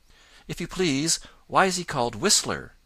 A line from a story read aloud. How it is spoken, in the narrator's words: asked Johnny Chuck eagerly